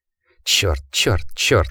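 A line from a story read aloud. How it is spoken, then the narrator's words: Mutter. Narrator (Russian): пробормотал Джек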